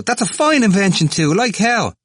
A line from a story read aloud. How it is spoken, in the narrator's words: cried Temple